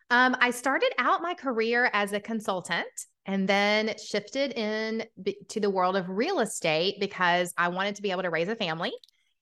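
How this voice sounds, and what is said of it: Southern US accent. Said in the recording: “the Southern accent, it comes out quite often”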